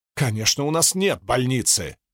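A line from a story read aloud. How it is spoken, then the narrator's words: Bark. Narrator (Russian): рявкнула Лузинтия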